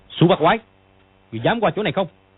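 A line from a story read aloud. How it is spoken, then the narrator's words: Challenging shout. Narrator (Vietnamese): Dương Quá bèn lao sang quát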